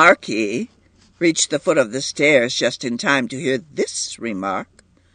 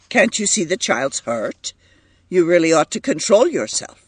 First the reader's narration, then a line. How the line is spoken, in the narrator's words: he said sharply